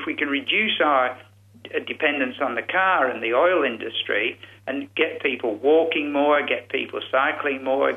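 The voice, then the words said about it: English accent, powerful delivery. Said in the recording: “your English accent and your powerful way of talking”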